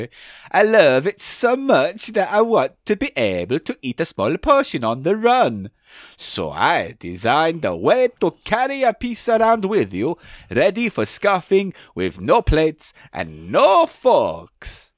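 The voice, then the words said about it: Put-on unidentified accent. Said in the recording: “I don't know what this accent is, but I'm just going to go with it ... Problem with accents.”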